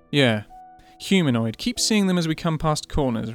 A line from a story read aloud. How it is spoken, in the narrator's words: replied Lagatha